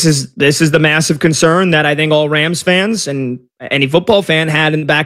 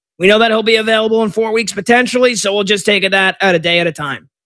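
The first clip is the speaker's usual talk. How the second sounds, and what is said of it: Imitates another person's voice. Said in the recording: “my McVay impression”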